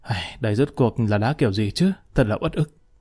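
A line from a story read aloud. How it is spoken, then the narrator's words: Grunt and sigh. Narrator (Vietnamese): Trương Nhất Thủy ừ một tiếng thở dài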